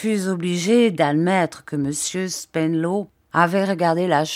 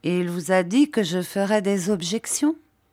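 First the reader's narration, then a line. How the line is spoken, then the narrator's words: Plain. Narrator (French): demanda Monsieur Jorkins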